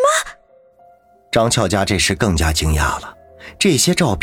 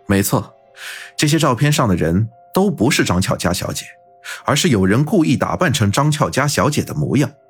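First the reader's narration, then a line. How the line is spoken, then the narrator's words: Smiling, affirmative. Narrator (Chinese): 云峰微笑着肯定的说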